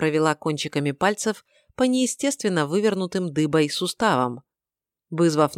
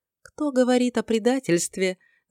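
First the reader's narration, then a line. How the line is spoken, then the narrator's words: Ringing laugh. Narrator (Russian): звонко рассмеялась она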